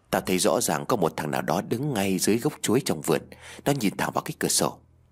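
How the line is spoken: Close whisper. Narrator (Vietnamese): Đàn ghé sát mặt vào thì thầm nói

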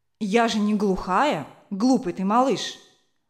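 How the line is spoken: Angry mother. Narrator (Russian): ответила сердито мать

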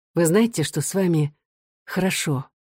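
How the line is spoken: Quiet question. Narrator (Russian): Людмила тихо спросила

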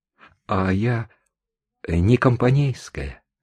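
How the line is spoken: Very unsteady voice. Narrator (Russian): совсем уже нетвердым голосом ответила мадам

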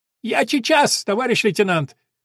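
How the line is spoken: Shouted. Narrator (Russian): Шкалик крикнул

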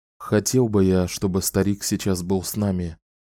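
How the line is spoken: Whispered. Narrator (Russian): шепнул он Кэлен

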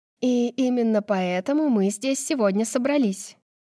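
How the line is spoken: Joyful announcement. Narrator (Russian): радостно сообщает Лина

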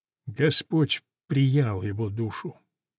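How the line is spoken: Quiet speech. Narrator (Russian): тихо говорит

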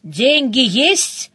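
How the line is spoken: Growl. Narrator (Russian): прорычала я

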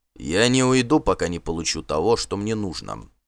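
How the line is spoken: Calm reply. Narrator (Russian): спокойно ответил Торбранд

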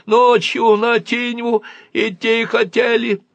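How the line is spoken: Nasal lying voice. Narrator (Russian): гнусаве соврал Барбарис и шмыгнул носом

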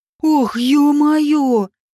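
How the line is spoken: Shocked exhale. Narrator (Russian): Потрясенно выдохнул он

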